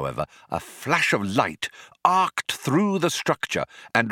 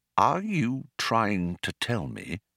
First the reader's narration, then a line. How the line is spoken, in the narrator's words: said Arthur, slowly and with control